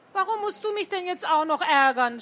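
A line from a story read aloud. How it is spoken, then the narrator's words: Shouting. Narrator (German): schrie Tore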